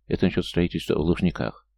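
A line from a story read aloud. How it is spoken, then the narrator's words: Quiet, close to ear. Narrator (Russian): наклонившись к его уху, тихо проговорил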